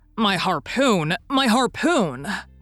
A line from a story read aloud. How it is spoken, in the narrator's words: cried Ned Land